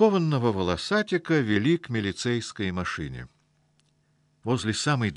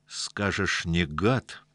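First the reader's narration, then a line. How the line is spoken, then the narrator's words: Hostile through-teeth mutter. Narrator (Russian): процедил Павлик, с неприязнью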